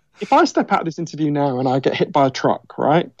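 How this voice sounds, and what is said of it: Posh British accent. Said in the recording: “in Britain, where I'm from, as you can tell from my weird Downton Abbey accent”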